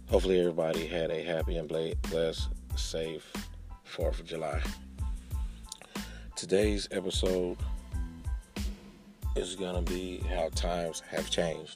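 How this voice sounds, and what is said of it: Voice slightly off, still recovering. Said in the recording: “I've been feeling under the weather, and I'm just now getting my voice back somewhat. So my voice sounds a little different on today... I am in the process of regaining my voice”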